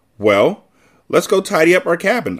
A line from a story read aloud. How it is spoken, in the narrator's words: suggested brightly